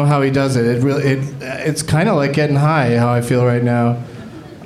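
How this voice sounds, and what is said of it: Usual voice. Nothing is said of it.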